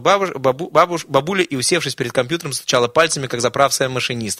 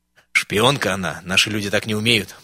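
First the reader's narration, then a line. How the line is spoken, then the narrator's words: Whispered, then said loudly. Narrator (Russian): прошептал заводчик, но вслух громко произнес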